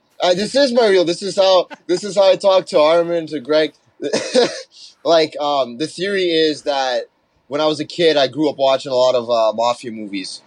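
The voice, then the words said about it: Brooklyn Italian-sounding Toronto accent. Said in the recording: “sound like an Italian? He sounds very Italian, like from Brooklyn or something... Your accent is like unique... it's a little bit of Toronto man's, but not really. It's a little more. It's a little more edgy.”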